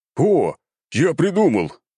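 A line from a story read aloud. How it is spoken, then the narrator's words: Young man's excited exclamation. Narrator (Russian): воскликнул младший сын главы рода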